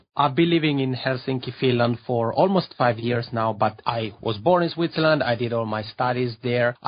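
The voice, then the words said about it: Italian-Swiss accented English. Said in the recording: “I have a Macaroni accent because I'm from the Italian-speaking part of Switzerland”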